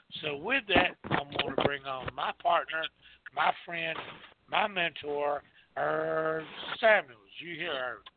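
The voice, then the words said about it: Country accent. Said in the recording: “my voice and my countryness, my accent”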